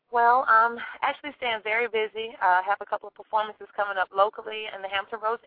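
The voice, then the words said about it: Mild Southern drawl. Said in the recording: “I'm from North Carolina. I'm sure you can hear that southern drawl a little bit.”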